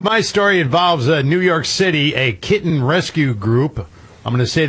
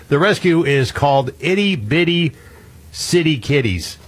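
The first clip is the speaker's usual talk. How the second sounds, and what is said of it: Very slow, deliberate speech. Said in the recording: “say this very slowly ... I will not say it faster”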